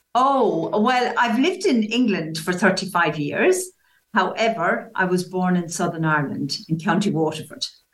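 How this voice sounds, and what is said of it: Irish accent. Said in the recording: “your wonderful Irish accent ... I never lost the accent”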